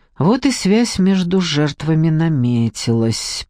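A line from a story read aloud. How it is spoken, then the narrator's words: Muttering. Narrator (Russian): пробормотала Надежда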